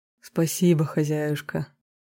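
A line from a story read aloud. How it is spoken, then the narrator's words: Affectionate male voice. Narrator (Russian): ласково произнес он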